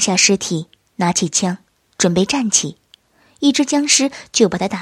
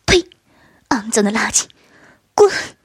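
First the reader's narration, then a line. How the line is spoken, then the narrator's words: Angry scolding. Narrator (Chinese): 轩儿生气的骂道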